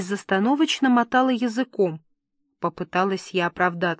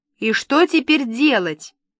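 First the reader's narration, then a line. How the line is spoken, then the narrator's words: Barked. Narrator (Russian): рявкнул Куприн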